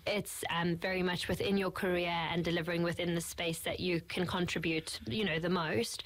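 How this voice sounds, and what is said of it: South African accent. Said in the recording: “the accent ... I'm originally from South Africa”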